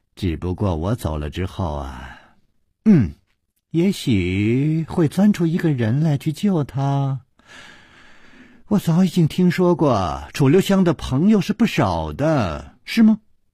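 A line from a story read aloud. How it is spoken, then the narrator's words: Child, laughing. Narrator (Chinese): 童子 笑着说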